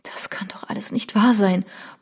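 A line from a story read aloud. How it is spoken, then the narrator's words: Barely audible murmur. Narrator (German): murmelte sie kaum hörbar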